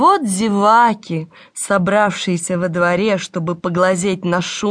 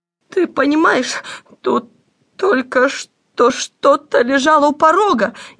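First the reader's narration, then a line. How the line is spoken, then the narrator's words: Frightened. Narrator (Russian): испуганно сообщила она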